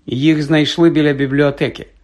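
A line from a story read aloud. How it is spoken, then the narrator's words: Plain. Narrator (Ukrainian): сказала професорка МакГонагел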